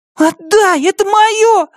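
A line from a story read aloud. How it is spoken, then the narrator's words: Screaming. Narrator (Russian): завопила Марли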